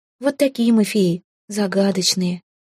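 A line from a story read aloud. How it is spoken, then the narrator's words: Sad sigh. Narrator (Russian): печально вздохнула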